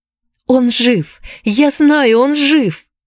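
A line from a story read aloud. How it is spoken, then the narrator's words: Shouting. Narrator (Russian): закричала Энн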